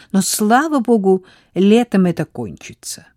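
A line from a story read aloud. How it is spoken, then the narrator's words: Irritated reply. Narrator (Russian): раздраженно ответила ему Изабель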